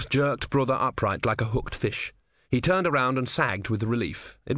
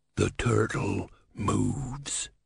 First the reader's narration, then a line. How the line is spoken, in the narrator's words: he hissed